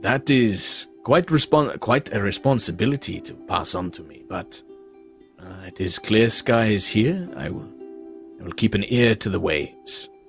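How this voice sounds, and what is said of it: Vaguely Caribbean pirate accent. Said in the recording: “Remember his accent? ... It was vaguely Caribbean / Pirates of the Caribbean.”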